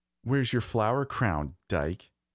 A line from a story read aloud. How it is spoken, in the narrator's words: Sasha said